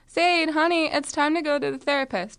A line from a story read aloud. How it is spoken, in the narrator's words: my mom yelled to me from downstairs